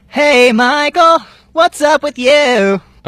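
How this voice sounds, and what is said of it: Robotic auto-tuned voice. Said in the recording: “Why does your voice sound like that? ... I sound like a robot. ... You sound like T-Pain or Kanye. ... Your voice is stuck like that”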